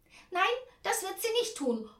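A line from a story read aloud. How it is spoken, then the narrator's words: Calling out. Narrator (German): ruft Tante Ernie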